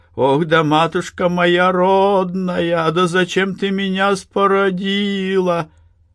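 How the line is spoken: Woman wailing, sobbing voice. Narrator (Russian): Ломким, рыдающим голосом баба причитала

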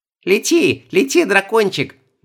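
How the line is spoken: Excited squeal. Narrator (Russian): возбужденно запищала Оля

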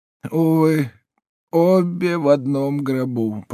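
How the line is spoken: Moaning. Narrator (Russian): простонал еврей

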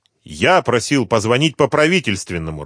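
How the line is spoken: Irritated. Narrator (Russian): раздраженно сказал Полетаев

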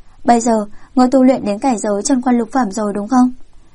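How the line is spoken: Sighing man. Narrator (Vietnamese): Người đàn ông râu đẹp thở dài nói

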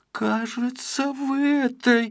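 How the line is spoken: Gasping mumble. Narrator (Russian): разевая рот, словно вытащенная из воды рыба, промямлил Пончик

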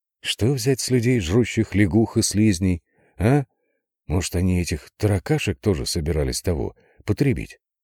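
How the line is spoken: Quiet musing. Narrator (Russian): Тихонько размышлял управляющий гостиницы

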